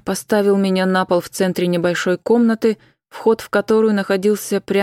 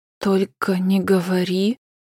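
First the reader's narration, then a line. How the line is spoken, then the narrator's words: Frightened whisper. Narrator (Russian): прошептала с испугом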